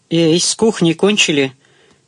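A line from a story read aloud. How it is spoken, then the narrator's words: Investigator shouting. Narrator (Russian): крикнул следователь в пространство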